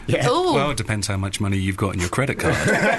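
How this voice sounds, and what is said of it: Sultry radio presenter voice. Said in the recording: “how much of a radio voice ... has ... it's quite a dirty radio voice”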